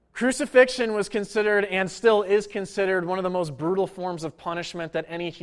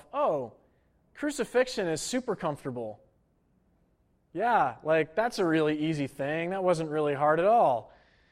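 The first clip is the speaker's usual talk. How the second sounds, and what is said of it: Sarcastic tone. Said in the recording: “I'm being sarcastic a little bit right now.”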